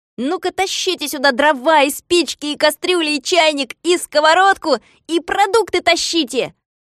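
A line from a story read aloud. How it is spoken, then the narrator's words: Shouting. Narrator (Russian): закричал коротышкам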